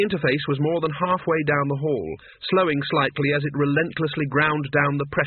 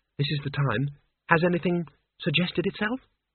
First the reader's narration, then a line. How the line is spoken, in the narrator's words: she said quietly